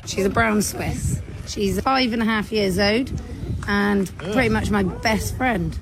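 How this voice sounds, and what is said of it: British accent. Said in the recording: “her disgusting British accent ... British voices it's like nails on a chalkboard”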